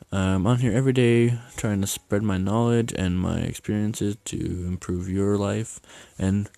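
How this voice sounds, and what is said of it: Slightly off, sick-sounding voice. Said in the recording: “my voice is a little off today because I'm not feeling well ... I am not feeling good and I'm tired”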